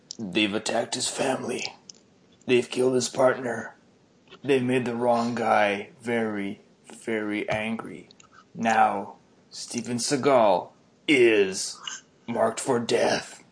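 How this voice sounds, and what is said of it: Deep movie trailer narrator voice. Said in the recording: “my best impression of a uh, Deep Trailer voice guy ... that was pretty good”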